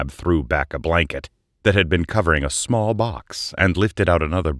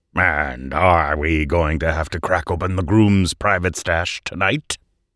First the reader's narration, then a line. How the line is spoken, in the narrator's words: Aubert growled